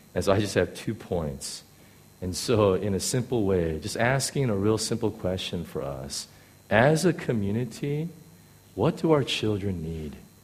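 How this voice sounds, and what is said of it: Hoarse, strained voice. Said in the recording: “because of my laryngitis”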